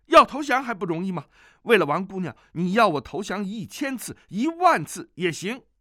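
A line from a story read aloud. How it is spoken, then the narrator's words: Shouting. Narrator (Chinese): 只听他叫道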